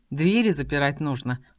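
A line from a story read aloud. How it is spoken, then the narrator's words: Wry hmph. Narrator (Russian): хмыкнул брюнет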